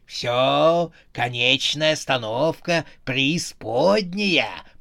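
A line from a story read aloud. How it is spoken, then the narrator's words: Growl. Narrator (Russian): прорычал Харон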